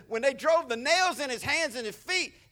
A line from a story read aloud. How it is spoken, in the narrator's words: he cried